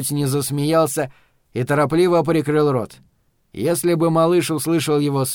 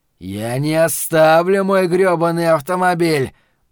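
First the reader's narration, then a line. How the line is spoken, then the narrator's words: Growling. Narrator (Russian): прорычал он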